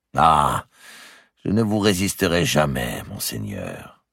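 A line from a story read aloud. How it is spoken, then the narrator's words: Sighing. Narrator (French): dit Ptolomée en soupirant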